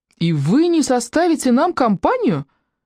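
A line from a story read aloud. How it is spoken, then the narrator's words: Exclaiming. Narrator (Russian): воскликнул Колдунов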